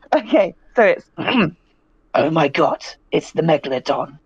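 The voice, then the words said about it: Imitates another person's voice. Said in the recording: “my only impression I can do of anyone, and that's Jason Statham in the Meg”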